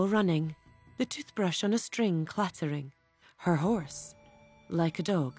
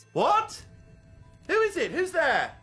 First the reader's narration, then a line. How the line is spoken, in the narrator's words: He shouts